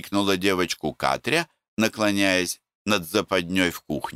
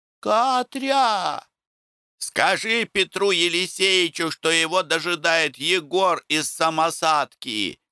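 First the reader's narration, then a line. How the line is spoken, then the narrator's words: Woman shouting after someone. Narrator (Russian): крикнула домнушка вслед убегавшей девушке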